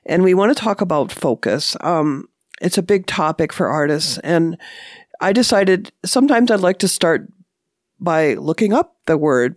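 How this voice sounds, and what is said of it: Slightly rough voice. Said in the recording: “My voice is a little bit rough here. I'm getting over a cold”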